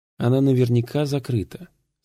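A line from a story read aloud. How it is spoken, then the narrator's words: Calm. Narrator (Russian): спокойно сказал Уолтер Феллон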